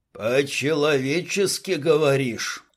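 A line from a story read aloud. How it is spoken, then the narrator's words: Growling. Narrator (Russian): зарычал Дима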